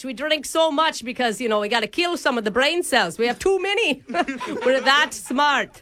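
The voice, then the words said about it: Mixed Australian Irish British Scottish accent. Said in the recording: “my Australian, Irish, British, Scottish accent ... It's really hard to listen to”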